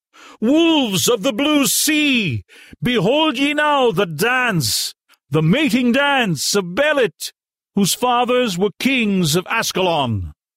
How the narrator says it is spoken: she cried to the desperate horde

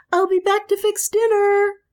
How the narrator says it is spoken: shouted joyfully

